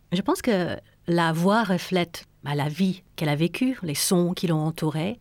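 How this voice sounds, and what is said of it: American accent speaking French. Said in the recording (French): “j'ai un accent. Je viens des États-Unis”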